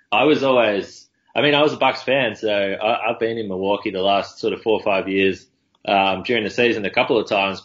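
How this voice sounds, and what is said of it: Australian accent. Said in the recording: “you've gotten some attention for being Australian ... my accent”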